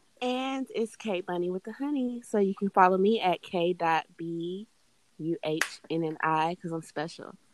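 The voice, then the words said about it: Quiet, soft-spoken girlish voice. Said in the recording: “She got this quiet girl voice ... Like, let me sit over here and be quiet.”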